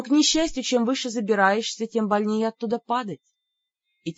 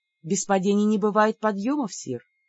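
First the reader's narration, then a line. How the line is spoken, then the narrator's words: Sad smiling voice. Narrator (Russian): грустно улыбнулась я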